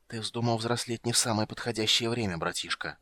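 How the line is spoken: Mage whispering. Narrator (Russian): прошептал маг

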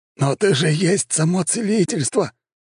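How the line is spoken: Exclamation. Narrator (Russian): воскликнул Фадосиус

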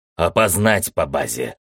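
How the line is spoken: Barked. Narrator (Russian): рявкнул командор

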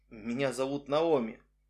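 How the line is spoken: Very quiet muffled whisper. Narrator (Russian): очень тихо шепнула, прикрыв рот рукой, моя спутница

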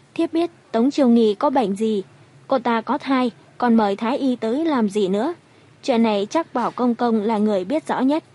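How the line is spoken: Smiling. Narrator (Vietnamese): Ôn Uyển đột nhiên đứng dậy mỉm cười

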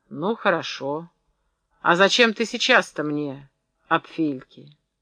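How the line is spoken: Old man, even, calm. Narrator (Russian): Старик ответил ровно и спокойно

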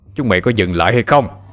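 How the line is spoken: Startled loud shout. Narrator (Vietnamese): Thằng trọc giật mình mà hét lớn

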